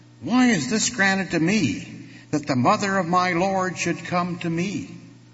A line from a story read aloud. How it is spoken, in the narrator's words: Elizabeth exclaim